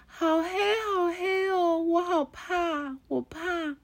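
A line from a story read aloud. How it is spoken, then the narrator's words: Crying loudly. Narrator (Chinese): 小刺猬在那里大声哭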